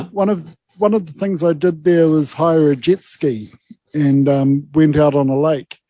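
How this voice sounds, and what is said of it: Very thick southern accent. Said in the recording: “I've got this very thick southern accent”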